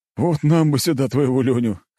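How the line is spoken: Short laugh. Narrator (Russian): хохотнул один из офицеров

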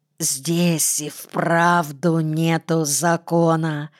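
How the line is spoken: Hoarse hiss. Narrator (Russian): с хрипом прошипел им вслед Вася

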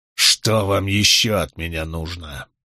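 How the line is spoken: Spiteful through teeth. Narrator (Russian): процедил Гэвин Буравина с злобным взглядом

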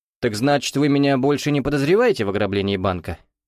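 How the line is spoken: Disdainful snort. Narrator (Russian): Толстяк лишь неприязненно хмыкнул

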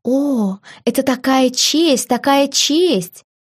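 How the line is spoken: Exclaiming. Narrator (Russian): воскликнула помощница модистки

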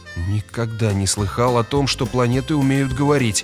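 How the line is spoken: Muttering. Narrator (Russian): пробормотал Грегор

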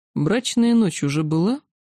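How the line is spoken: Lazy yet menacing question. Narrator (Russian): лениво поинтересовался владыка, только вот вопрос его все равно прозвучал угрожающе

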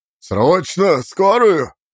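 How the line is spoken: Loud bark. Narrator (Russian): гаркнул Потапов

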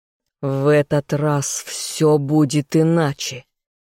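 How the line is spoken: Growled. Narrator (Russian): зарычал я

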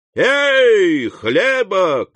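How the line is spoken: Shout. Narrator (Russian): крикнул

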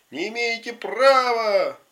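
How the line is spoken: Shouting from a distance. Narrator (Russian): только Миша Горбунов кричал из переулка

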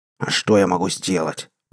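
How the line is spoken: Hissing. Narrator (Russian): прошипел хозяин

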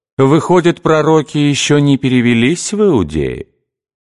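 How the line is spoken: Mocking drawl. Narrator (Russian): протянул он насмешливо

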